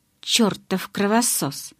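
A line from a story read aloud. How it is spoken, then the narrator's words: Muttering. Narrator (Russian): наконец пробормотал он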